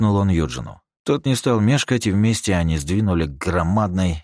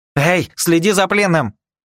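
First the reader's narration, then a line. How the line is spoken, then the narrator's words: Sharp shout. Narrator (Russian): прикрикнул на него Либерти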